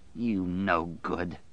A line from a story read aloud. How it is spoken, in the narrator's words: Dave snarled